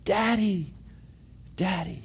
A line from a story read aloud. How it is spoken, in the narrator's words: yell